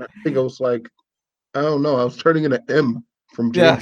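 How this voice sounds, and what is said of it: Usual voice. Nothing is said of it.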